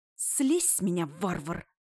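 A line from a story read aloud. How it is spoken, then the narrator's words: Hissing. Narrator (Russian): зашипела я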